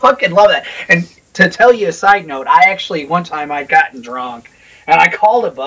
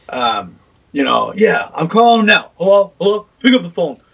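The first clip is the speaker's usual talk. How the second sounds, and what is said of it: Imitates a boss with an accent. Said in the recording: “The boss with the fucking that accent.”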